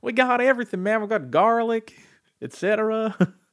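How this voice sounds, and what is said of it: Hick American accent. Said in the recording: “this hick American accent”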